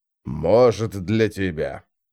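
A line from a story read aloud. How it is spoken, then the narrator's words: Muttering. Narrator (Russian): пробормотал престол Тени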